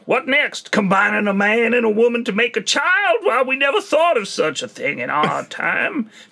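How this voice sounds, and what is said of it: Breathless old American Western accent. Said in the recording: “an American Wild Western man accent who's short of breath all the time as well? He's just kind of running off ... Just a funny accent ... It's a comical accent”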